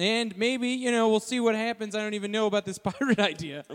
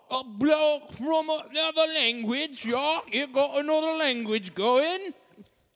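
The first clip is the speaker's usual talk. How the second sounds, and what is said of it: Put-on British accent. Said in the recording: “I'm going to do a British voice too ... I want to do a British voice.”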